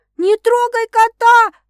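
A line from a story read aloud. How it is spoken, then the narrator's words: Hurried shout. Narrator (Russian): едва успеваю крикнуть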